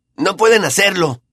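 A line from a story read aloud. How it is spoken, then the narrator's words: Shouted. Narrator (Spanish): gritó Ron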